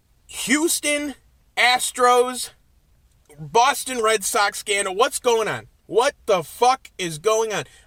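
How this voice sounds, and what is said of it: Screaming. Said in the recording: “I'm screaming at my cell phone”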